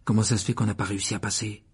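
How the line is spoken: Whispered in ear. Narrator (French): chuchota Harry à l'oreille de Ron

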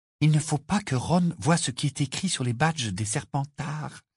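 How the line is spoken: Hurried whisper. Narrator (French): chuchota-t-elle précipitamment

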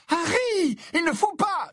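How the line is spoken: Yelled. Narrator (French): hurla Hermione

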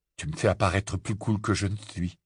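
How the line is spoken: Muttering. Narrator (French): marmonna Ron

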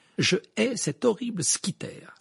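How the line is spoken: Fierce exclamation. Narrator (French): s'exclama-t-elle avec férocité

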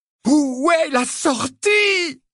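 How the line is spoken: Desperate yell. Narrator (French): hurla-t-il avec l'énergie du désespoir

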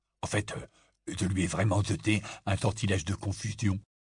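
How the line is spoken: Murmuring. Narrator (French): murmura Ron à Harry

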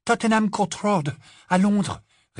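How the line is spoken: Breathless. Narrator (French): répondit Hermione, d'une voix essoufflée

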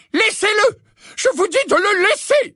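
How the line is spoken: Exclaimed from the darkness. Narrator (French): s'exclama la voix du professeur McGonagall dans l'obscurité

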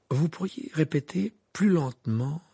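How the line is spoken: Timid voice. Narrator (French): demanda-t-il d'une voix timide

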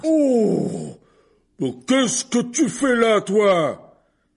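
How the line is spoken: Sudden roar. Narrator (French): rugit-il si brusquement que tout le monde fit un bond

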